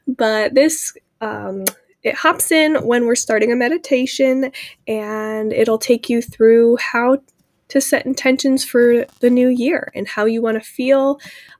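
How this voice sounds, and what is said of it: Voice strained from a cold. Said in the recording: “You'll have to excuse my voice a little bit. I'm fighting a bit of a cold here, so you might notice me cough.”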